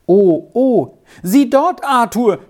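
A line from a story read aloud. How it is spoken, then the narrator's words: Sudden cry. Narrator (German): schrie Squirrel auf einmal auf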